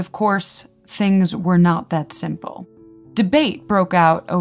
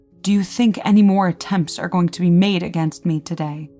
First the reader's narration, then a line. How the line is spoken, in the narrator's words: he angrily inquired